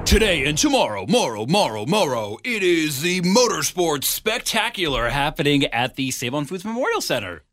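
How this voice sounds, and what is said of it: Raspy monster truck announcer voice. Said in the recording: “that was a pretty good monster truck announcer voice ... I've been doing a little screaming, getting my throat a little rough ... So you could get that rasp.”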